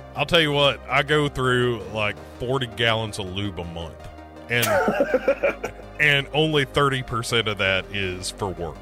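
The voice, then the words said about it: Put-on Southern US accent. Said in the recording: “you had a southern accent there”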